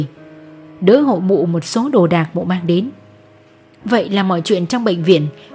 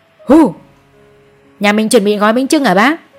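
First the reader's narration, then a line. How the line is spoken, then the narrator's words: Playful loud shout. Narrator (Vietnamese): Chú Đại nghịch ngợm hét to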